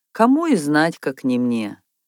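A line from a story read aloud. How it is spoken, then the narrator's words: Heavy sigh. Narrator (Russian): снова тяжело вздохнул он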